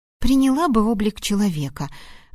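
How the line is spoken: Sighing. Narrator (Russian): вздохнула я

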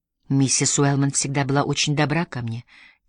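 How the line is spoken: Soft gentle voice. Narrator (Russian): тихо произнесла Мэри своим нежным голосом

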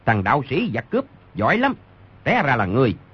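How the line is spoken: Barked shout. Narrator (Vietnamese): Người đứng đầu quát

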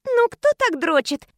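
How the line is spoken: Loud ringing voice. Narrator (Russian): подала я громкий звонкий голос

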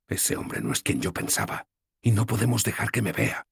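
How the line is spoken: Whispering. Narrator (Spanish): susurré

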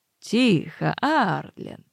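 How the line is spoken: Peaceable tone. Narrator (Russian): начал он миролюбивым тоном

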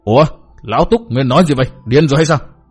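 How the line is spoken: Angry. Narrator (Vietnamese): giận dữ nói

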